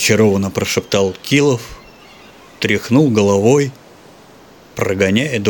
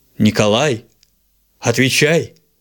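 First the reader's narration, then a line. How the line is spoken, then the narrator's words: Brother's stern command. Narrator (Russian): строго приказал голос брата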